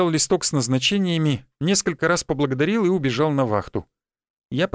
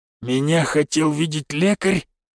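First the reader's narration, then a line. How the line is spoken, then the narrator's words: Hoarse question. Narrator (Russian): хрипло поинтересовался он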